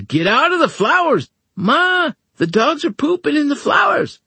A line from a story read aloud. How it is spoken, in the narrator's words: Minnie shouted